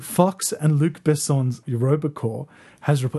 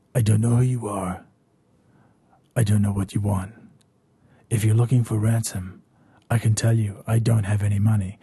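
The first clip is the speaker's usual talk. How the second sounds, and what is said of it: Liam Neeson impression. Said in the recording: “I'm gonna do an impression, ladies and gentlemen. An impression. ... That was Liam Neeson, by the way”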